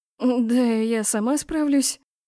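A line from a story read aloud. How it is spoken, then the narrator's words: Stammering mumble. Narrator (Russian): заикаясь, промямлила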